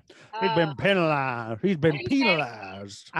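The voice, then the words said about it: Put-on Southern accent. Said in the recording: “Penalized feels very Southern to me... When you say with a Southern accent, I actually do like penalized.”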